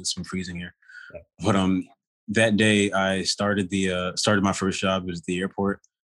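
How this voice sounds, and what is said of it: Speaking with a cold. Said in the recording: “sorry sorry if I cough every now and then. I think I have a cold.”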